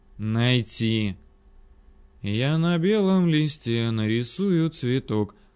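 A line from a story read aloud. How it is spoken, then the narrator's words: Purring under breath. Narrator (Russian): замурлыкал себе под нос маньяк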